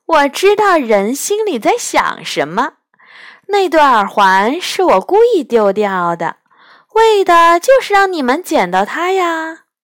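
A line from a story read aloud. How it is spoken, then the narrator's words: Hearty laughter. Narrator (Chinese): 狐仙大笑道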